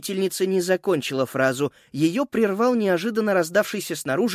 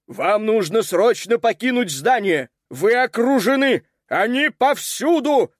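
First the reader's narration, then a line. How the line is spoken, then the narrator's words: Roar. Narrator (Russian): проревел он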